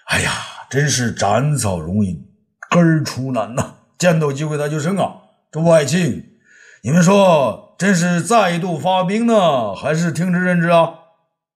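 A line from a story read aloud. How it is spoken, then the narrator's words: Sighing exclamation. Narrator (Chinese): 武帝感叹地说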